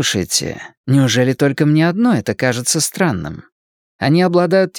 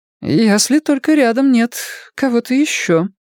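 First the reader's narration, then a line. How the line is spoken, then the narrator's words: Uncertain suggestion. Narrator (Russian): неуверенно предположила Джеймс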